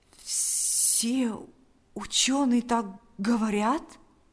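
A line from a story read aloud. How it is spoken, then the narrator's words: Trembling question. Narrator (Russian): спросил Павел дрогнувшим голосом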